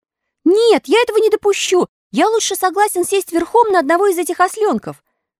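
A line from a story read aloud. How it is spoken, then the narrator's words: Exclaimed. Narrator (Russian): воскликнул Пиноккио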